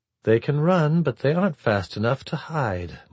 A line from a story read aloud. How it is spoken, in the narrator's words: Murakuma said flatly